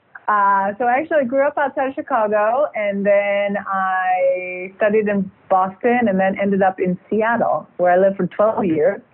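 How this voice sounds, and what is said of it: Non-French accent. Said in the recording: “you can probably gather from my accent that I am not French”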